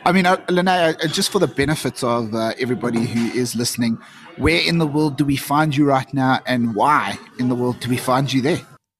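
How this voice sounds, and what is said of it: South African accent. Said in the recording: “my South African twang”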